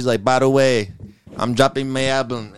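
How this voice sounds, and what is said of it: Put-on Caribbean island accent. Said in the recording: “What was that accent? ... I don't know what the accent was, but like you know, I was trying to do the island thing.”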